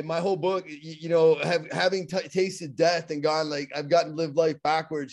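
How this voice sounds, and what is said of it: Pittsburgh accent. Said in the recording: “I have my Pittsburgh accent.”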